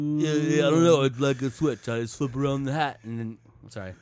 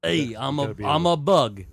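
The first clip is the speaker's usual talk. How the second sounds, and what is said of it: Sylvester Stallone impression. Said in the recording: “That's my impression of him as an ant... Stallone”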